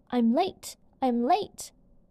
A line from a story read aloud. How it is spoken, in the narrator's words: the white rabbit cried